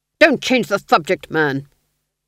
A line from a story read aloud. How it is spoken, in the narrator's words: snapped the Duke